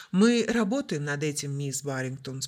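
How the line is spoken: Calm reply. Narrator (Russian): спокойно ответил капитан

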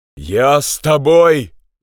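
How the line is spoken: Shout. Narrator (Russian): закричал Роберт Джордан

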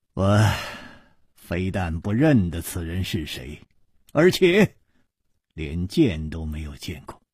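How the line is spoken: Sighing. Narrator (Chinese): 楚留香叹道

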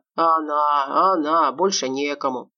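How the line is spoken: Grumbling. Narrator (Russian): проворчал полковник

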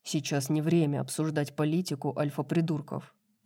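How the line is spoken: Grumbling. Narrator (Russian): проворчал Хант

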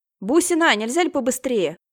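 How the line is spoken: Shouting. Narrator (Russian): крикнула Яна

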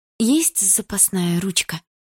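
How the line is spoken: Quiet question. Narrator (Russian): спросила я тихо

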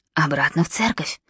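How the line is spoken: Whispered command. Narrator (Russian): скомандовал шепотом невидимый Нимрод

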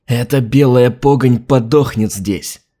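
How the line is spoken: Spiteful through teeth. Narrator (Russian): злобно процедил адмирал

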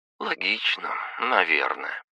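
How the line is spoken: Muttered. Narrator (Russian): пробормотала Кристина

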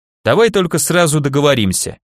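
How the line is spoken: Sharp interruption. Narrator (Russian): резко перебил

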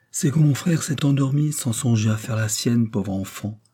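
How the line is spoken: Plain. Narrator (French): dit Madame Royale

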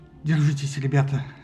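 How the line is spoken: Slightly trembling voice. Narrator (Russian): сказала она немного дрожащим голосом

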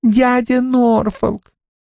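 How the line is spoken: Ringing childlike girl's voice. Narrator (Russian): девушка звонким детским голосом произносит

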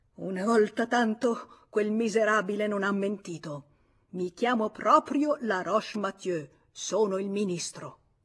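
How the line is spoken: Forceful exclamation. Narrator (Italian): esclamò con forza

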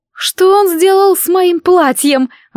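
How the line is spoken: Wailing. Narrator (Russian): взвыла Катрин

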